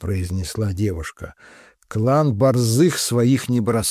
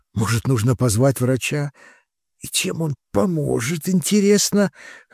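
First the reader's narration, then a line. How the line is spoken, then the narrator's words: Gasping, forced out. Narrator (Russian): хватая воздух ртом, выдавил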